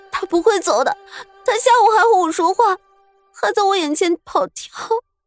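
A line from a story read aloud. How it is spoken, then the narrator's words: Tearful crying out. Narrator (Chinese): 纯儿的眼泪此时也落了下来，哭喊道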